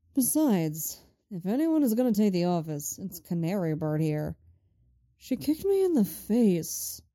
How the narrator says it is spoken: he says mournfully

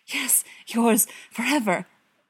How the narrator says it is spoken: gasp

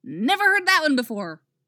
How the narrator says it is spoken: Wally yelps, his voice jumping up about 3 indignant octaves

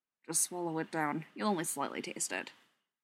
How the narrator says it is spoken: mutter

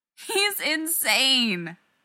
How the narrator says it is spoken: Rodney moaned

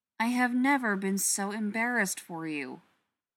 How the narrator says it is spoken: Ryan says

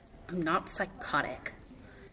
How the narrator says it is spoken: His voice had a stubborn edge as he muttered

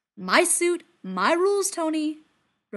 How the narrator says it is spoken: Rhodey yells back

